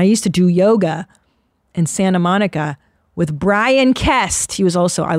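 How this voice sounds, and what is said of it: Usual voice. Nothing is said of it.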